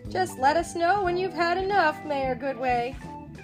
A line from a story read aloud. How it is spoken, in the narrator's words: chuckled Mayor Humdinger